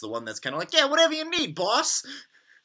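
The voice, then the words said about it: Mob-style put-on accent. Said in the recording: “that's a good, nice accent”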